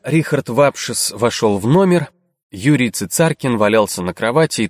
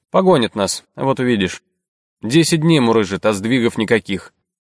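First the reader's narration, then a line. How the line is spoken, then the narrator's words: Gloomy. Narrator (Russian): мрачно предположил Цицаркин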